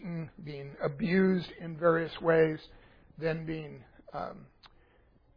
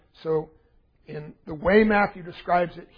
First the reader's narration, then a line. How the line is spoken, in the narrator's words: he cries out in this manner loudly